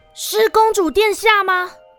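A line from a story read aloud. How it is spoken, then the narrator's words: Uncertain call. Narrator (Chinese): 卢娜不确定的喊了句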